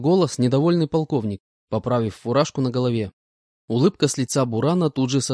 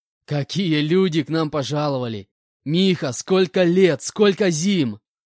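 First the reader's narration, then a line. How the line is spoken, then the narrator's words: Laughing reply. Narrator (Russian): Расхохотавшись, ответил Валера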